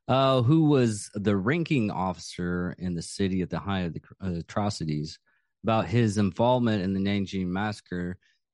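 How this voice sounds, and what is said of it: Texas accent. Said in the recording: “my Texas accent sometimes just goes on through”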